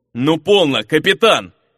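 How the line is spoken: Growled. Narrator (Russian): рыкнул на Демуора ветеран

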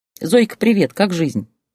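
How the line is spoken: Cheerful question. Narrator (Russian): весело поинтересовалась она

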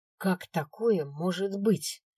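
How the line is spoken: Angry demand. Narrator (Russian): вопрошал мессир, зло сверкая глазами

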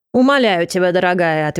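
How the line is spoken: Irritated. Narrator (Russian): ответил раздраженным тоном

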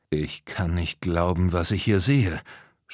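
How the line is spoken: Stammer. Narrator (German): stammelte er

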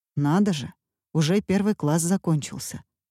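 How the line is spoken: Plain. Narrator (Russian): сказал он

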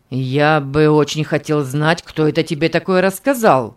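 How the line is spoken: Angry question. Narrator (Russian): Нахмурившись сердито, спросил Конрад

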